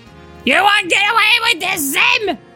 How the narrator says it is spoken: Dib screamed

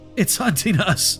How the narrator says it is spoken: gasped, still feeling the cold breath of the shadows on my neck

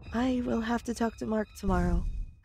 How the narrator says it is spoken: I said sadly

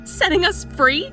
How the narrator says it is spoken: I cried

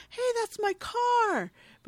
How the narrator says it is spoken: He screams

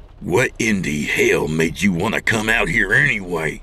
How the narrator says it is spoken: Don growled

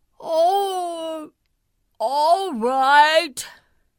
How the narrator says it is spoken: said sleepily

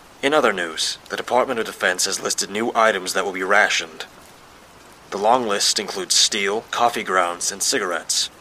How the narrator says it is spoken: said a news broadcaster in a transatlantic accent

